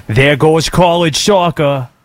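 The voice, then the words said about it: Boston accent. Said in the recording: “That's a good Boston, pal. ... That's a good Boston.”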